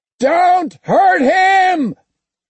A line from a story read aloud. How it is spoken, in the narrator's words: Noble screamed